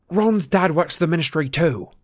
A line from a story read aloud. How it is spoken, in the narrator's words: said Harry furiously